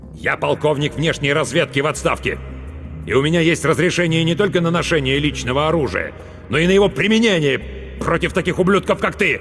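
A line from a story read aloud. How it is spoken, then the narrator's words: Loud bark. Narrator (Russian): громко рявкнул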